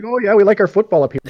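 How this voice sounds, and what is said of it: Put-on Minnesota Canadian-style accent. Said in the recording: “I wonder if they actually talk like Canadians.”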